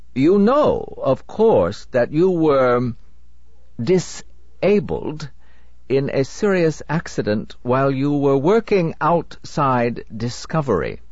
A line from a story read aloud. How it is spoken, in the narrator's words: said Anderson, still speaking in that curiously stilted voice, as if venturing in a foreign language